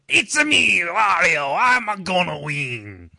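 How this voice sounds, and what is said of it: Weak Italian accent, strained-sounding. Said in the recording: “You need a better Italian accent, seriously. You just sounded like you were, I don't know, constipated.”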